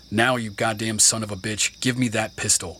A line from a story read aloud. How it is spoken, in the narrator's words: Fred growled